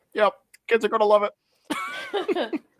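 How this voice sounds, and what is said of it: Imitates another person's voice. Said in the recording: “my George Lucas impression”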